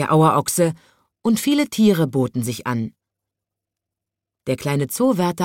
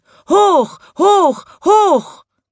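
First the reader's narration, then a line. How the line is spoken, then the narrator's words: Crowd shouting. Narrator (German): schrien die Leute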